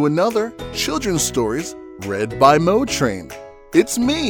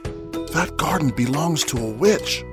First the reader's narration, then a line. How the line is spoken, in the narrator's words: whispered the husband